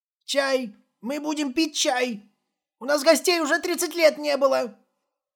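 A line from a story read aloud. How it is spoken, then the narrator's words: Old man's shriek, offended huffing. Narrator (Russian): завизжал старичок и обиженно запыхтел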